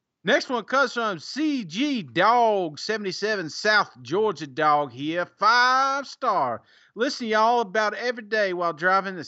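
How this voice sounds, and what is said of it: Suddenly speaking in a put-on accent. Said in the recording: “I don't know why I got an accent all of a sudden”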